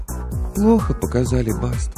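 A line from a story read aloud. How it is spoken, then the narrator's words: Dejected. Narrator (Russian): уныло ответила ведьма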